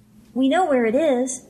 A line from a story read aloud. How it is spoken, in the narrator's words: the fellow said in a squeaky voice